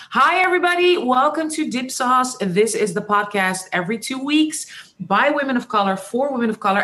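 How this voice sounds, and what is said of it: Dutch accent in English. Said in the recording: “my Dutch eh, English accent”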